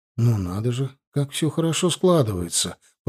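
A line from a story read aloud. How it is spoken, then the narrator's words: Mutter. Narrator (Russian): пробормотал я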